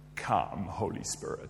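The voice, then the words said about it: Bad put-on American accent. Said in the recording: “That's an appallingly bad American accent,”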